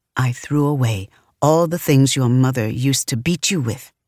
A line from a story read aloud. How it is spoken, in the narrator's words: he leaned in close to me and whispered